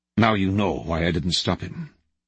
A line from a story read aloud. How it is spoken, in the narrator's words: After a few seconds of tense silence, Khrushchev finally said in a quiet voice